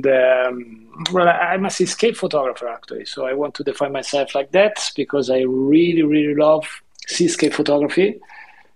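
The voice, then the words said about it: Italian-accented English. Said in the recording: “my accent, my fun accent, I'm Italian”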